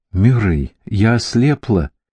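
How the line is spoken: Sobbing. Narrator (Russian): всхлипывала Роуз

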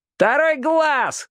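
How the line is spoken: Distant shout from crowd. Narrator (Russian): закричал кто-то в задних рядах

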